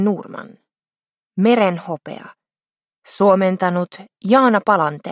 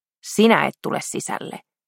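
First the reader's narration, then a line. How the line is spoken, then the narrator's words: Very stern voice. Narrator (Finnish): hän sanoi mahdollisimman ankaralla äänellä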